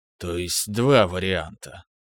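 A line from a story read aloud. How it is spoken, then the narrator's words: Thoughtful mutter. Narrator (Russian): задумчиво пробормотал Кхан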